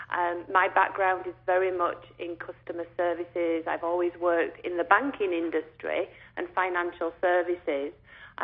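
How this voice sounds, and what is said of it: English accent. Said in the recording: “as you can tell from the accent, I'm not from around these parts ... we were from England, as you can probably tell”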